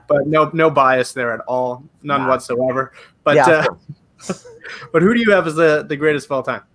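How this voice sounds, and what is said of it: Canadian accent. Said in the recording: “I'm Canadian. If you can't tell from the accent, I'm Canadian.”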